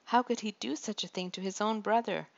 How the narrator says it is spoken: David exclaimed

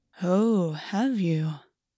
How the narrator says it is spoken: purred

